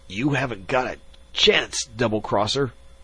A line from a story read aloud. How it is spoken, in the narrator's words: Zorn gasped